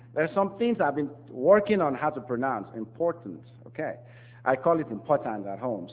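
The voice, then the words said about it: Non-native accented English. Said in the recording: “I want to apologize for my accent... some things come out not so clear”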